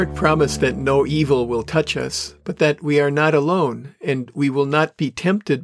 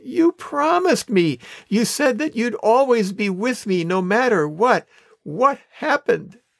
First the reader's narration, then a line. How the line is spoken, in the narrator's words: The man whined